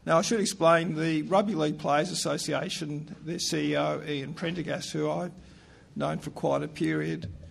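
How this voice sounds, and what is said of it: Croaky voice. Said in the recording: “My voice is a bit croaky ... I've got a cold at the moment ... please excuse my croaky voice”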